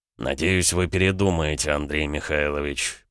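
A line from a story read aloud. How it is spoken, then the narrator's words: Count, through clenched teeth. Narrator (Russian): процедил граф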